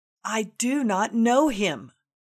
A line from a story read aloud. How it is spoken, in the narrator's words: that time of weakness, that instant of insanity, cried out in his doubt